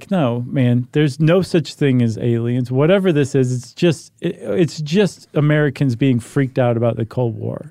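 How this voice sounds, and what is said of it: Impression of military officials. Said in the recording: “This is the Air Force brass talking. I'm doing my best impression of them.”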